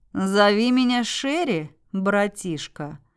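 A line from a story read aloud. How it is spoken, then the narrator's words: Smiling. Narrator (Russian): улыбнувшись, сказал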